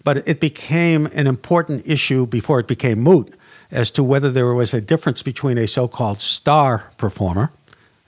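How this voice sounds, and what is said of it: Boston accent. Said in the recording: “my Boston accent is maybe coming in”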